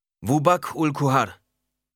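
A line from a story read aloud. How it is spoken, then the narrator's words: Calling out. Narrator (German): rief ihm entgegen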